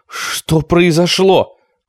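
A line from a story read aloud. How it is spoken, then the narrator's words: Shouting. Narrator (Russian): кричала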